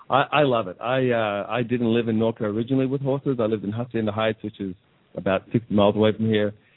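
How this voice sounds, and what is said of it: Australian accent. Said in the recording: “Australia, originally. ... I love that accent.”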